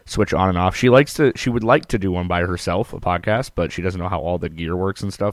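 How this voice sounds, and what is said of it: Strained, worn-out singing voice. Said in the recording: “fucked up my voice, blew my vocal cords out. So my voice is still recovering from that. I should technically still be on vocal rest right now”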